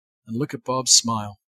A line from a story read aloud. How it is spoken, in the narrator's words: Dad replied softly with an unashamed awe